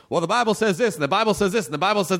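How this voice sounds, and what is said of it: Put-on Southern accent. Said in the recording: “I'm just doing a Southern accent because I'm from the South.”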